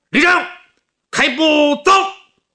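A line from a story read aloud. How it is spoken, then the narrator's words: Hurried shout. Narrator (Chinese): 葛明礼忙回头向秦德林喊了一声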